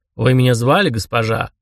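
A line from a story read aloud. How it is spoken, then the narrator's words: Pleasant low voice. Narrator (Russian): спросил приятным низким голосом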